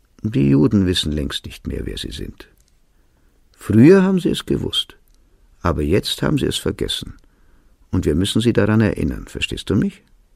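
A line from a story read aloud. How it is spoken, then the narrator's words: Sad speech. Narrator (German): fügte er traurig hinzu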